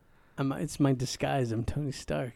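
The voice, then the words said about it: Imitates another person's voice. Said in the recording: “That was a spot-on impression of him.”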